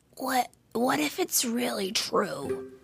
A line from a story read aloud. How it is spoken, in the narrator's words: he whispered to Molly